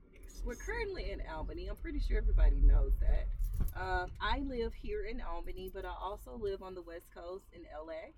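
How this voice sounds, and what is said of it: Southern US accent. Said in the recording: “that accent didn't sound LA at all ... I'm from Mississippi ... I'm still a Southern girl or a Southern belle.”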